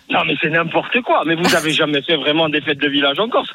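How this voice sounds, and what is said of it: Regional Corsican French accent. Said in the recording (French): “on adore l'accent”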